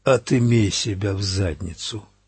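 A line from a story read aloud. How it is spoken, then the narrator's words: Shooter rasping. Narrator (Russian): хрипит стрелок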